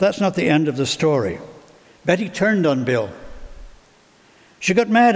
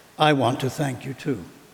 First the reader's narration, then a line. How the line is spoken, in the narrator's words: he said quietly